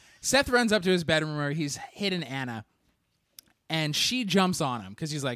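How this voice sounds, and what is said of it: Usual voice. Nothing is said of it.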